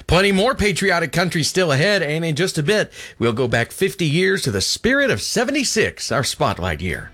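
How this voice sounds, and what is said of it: Impression of radio host Bill Cody. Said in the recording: “Doing my best Bill Cody impression.”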